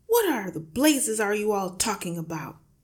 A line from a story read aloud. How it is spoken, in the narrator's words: the father yelled